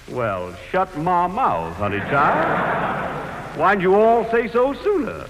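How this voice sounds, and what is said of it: Exaggerated put-on Southern accent. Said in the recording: “one of those charming southern accents ... Like a minstrel show”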